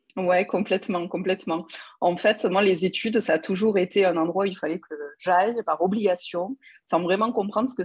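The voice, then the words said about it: Toulouse French accent. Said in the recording (French): “ton accent toulousain ... j'adore cet, cet accent”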